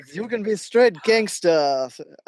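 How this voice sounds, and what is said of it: Deliberately bad put-on French accent. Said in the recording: “That's my French accent right there. I'm sorry, everybody. ... sorry for our terrible French accents”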